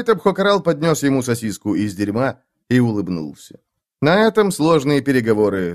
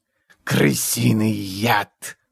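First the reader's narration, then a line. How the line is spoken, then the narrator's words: Hissing. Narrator (Russian): прошипел прыщ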